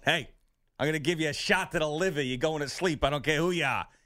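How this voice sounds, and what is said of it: Put-on Massachusetts accent. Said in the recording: “In the Massachusetts accent.”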